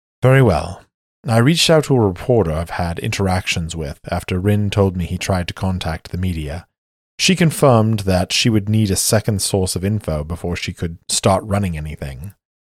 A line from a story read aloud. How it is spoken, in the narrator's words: Sejana sighs and says